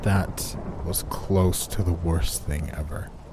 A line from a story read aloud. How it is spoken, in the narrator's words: groaned, in pain